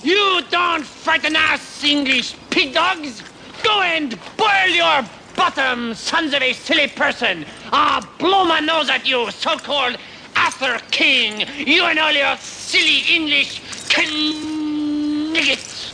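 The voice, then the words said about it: Outrageous put-on French accent. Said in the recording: “I'm French! Why do you think I have this outrageous accent”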